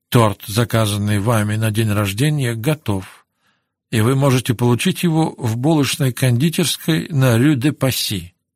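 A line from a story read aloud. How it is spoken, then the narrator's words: Hurried mutter. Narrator (Russian): успел пробормотать ей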